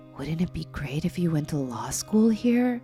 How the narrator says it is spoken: laughed

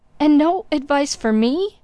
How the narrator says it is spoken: cried Blessington in a breaking voice

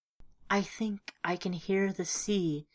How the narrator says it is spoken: she whispered

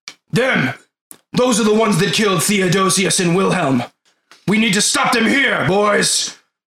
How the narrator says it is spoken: The slightly taller than everybody else, the guy with the armor, yells

